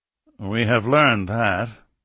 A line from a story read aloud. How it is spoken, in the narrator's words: the Foreign Minister answered dryly